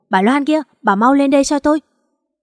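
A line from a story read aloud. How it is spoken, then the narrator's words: Shouting from upstairs. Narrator (Vietnamese): tiếng Thư hét lên trên lầu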